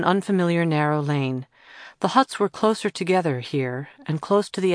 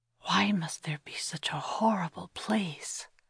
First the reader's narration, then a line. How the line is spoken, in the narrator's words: Kira whispered to Thomas